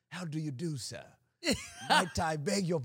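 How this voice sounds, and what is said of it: Posh British accent. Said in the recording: “the British accent is the coolest... This is a Queen's English”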